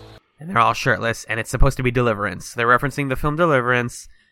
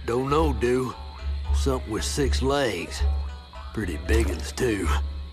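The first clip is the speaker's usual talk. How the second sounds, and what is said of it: Silly exaggerated Southern accent. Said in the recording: “they're doing like a silly southern accent”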